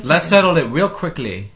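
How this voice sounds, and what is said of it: Attempted British accent. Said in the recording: “That was your British accent?”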